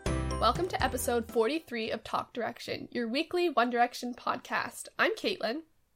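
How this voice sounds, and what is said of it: Nasal, congested sick voice. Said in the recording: “you might be able to hear it by my voice, but now I am sick... I'm still sound, like, all nasally... Mine's just like, like, super nasally.”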